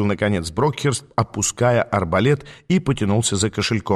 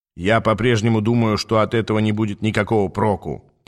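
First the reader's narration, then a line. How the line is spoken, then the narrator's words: Grumbling. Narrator (Russian): проворчал Хиггинс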